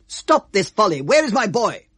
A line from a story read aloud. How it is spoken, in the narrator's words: shouted